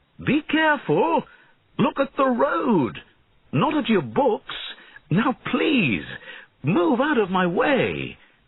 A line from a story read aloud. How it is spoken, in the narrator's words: he shouted